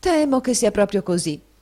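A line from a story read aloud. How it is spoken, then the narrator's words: Sighing reply. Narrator (Italian): rispose la signora Nickleby con un sospiro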